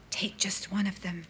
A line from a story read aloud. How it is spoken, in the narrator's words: she said in a voice that was barely more than a whisper